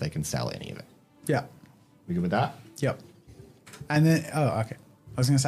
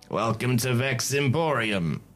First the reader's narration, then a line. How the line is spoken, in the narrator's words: he says with a raspy voice